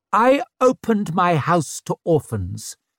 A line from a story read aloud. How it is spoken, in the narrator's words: answered Savine, her voice turning sharper